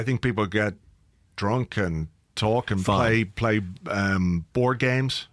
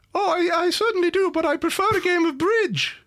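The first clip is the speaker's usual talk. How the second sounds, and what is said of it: Imitates another person's voice. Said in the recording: “a Mark Overmars accent”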